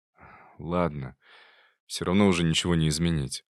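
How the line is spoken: Sigh. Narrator (Russian): вздохнул Никита

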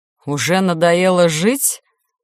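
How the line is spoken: Spiteful, angry question. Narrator (Russian): злобно спросил он

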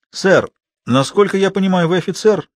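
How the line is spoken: Calm. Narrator (Russian): спокойно откликнулся Лаврик

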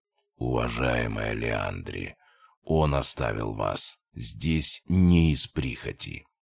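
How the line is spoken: Deep rumbling voice. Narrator (Russian): пророкотал лидер подполья своим низким голосом

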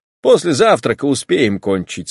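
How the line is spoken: Plain. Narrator (Russian): сказал Степан Аркадьич

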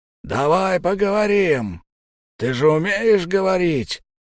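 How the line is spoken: Big man yelling hoarsely. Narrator (Russian): хрипло орал здоровяк

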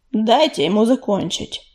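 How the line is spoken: Growled. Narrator (Russian): прорычал Огнезвезд

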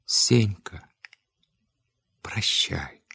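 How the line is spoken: Sad. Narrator (Russian): Левка так печально, так грустно сказал

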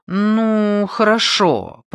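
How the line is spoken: Drawn-out drawl. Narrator (Russian): протянула она

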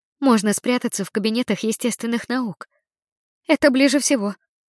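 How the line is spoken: Surprisingly calm voice. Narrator (Russian): предложила она на удивление спокойным голосом

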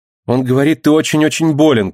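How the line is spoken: Shouted. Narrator (Russian): крикнула Реция

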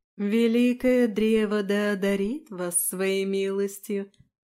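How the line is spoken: Sing-song chanting. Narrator (Russian): нараспев произнесла госпожа Кассия

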